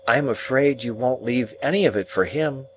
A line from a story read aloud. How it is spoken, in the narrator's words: said I timidly